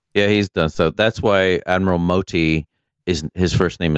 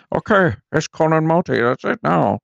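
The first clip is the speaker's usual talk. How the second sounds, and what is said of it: Imitates another person's voice. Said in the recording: “Not a bad impression.”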